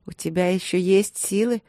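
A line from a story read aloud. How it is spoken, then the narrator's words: Mocking question. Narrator (Russian): спросила насмешливо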